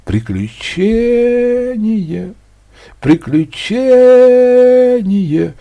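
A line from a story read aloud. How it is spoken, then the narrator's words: Dull mechanical thudding. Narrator (Russian): глухо стучал экскаватор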